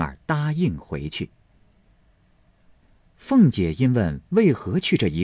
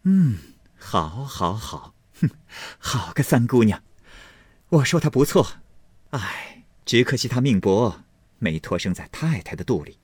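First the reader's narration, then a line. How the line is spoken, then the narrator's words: Laughing. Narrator (Chinese): 凤姐笑道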